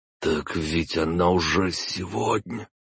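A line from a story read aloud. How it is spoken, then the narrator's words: Voiceless hoarse wheeze. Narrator (Russian): лишившись голоса, просипел он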